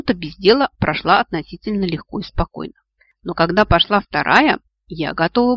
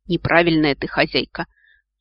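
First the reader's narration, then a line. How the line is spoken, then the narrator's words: Sighing. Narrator (Russian): вздохнул желудок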